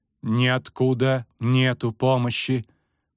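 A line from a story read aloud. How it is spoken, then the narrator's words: Resonant metallic girl's voice. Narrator (Russian): проговорила звучным металлическим голосом девушка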